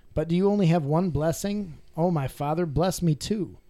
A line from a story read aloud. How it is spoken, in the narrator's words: Esau pleaded